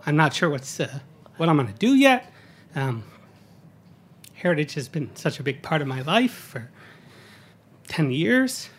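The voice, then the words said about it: Choked-up, emotional voice. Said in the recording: “get choked up a little”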